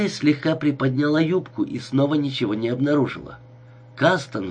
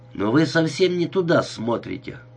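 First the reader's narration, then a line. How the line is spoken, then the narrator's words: Stern. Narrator (Russian): строго сказал он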